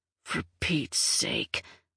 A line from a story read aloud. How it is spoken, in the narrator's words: Rigo muttered